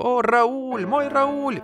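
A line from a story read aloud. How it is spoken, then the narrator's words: Sobbing. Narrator (Russian): всхлипывала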